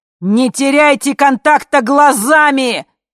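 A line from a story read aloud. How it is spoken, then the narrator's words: Shouting. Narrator (Russian): кричал А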